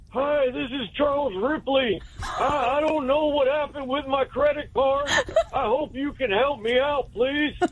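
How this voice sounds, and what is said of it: Old man voice like Hank Hill. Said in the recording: “I impersonate an old person ... Sounds like Hank Hill”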